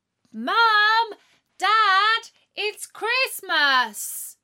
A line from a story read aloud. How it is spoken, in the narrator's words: shouted Natalie, even louder this time